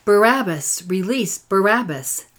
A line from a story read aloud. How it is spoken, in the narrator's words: the people, stirring them up until they shouted